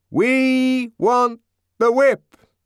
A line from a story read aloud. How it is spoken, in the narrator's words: shouted a group at the end of the line